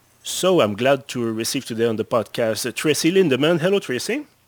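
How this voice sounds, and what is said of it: Strong Québécois French accent in English. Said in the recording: “mon anglais avec un fort accent québécois”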